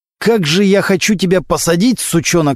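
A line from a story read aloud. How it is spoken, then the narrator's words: Through gritted teeth. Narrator (Russian): сказал сквозь зубы прокурор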